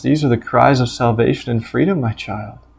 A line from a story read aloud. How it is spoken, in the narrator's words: the father calmly says